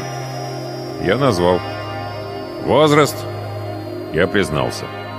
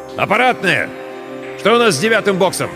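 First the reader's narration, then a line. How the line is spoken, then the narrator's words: Shouted. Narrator (Russian): закричал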